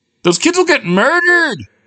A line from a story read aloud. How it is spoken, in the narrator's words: wailed Marie